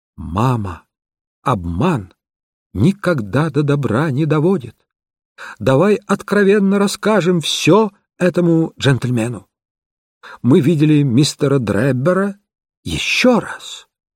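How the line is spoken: Calm and clear. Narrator (Russian): дочь спокойно и четко произнесла

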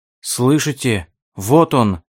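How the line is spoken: Excited. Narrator (Russian): взволнованно сказал Ральф

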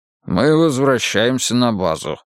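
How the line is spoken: Gruff mutter. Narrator (Russian): буркнул Улли

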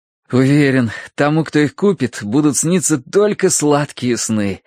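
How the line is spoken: Blissful sigh. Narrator (Russian): блаженно улыбаясь Тосси, вздохнул Терренс

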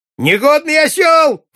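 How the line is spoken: Screeching old woman. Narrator (Russian): вопила старуха

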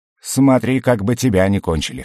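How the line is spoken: Sardonic grunt. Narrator (Russian): хмыкнул Муха

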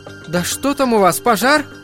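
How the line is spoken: Shouted. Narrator (Russian): крикнула она

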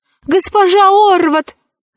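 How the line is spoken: Shouting. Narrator (Russian): закричала она

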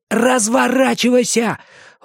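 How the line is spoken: Near shout. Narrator (Russian): Он почти кричал

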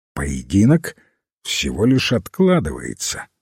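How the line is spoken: Calm. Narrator (Russian): спокойно ответил лорд Пули

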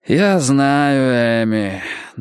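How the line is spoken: Sighing. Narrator (Russian): Дези вздохнул

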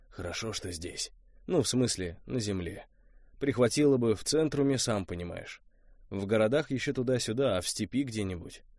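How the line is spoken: Said quietly. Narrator (Russian): тихо сказал

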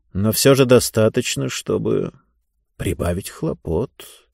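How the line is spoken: Quiet voice. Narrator (Russian): тихим голосом сказал зонтоломайстер

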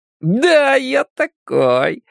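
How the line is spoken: Joyful reply. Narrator (Russian): радостно ответил он

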